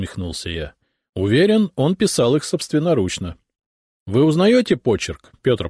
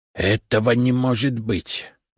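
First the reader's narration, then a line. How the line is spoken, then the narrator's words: Muttered. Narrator (Russian): пробормотал он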